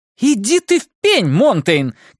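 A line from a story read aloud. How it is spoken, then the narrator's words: Shouting. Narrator (Russian): крикнула она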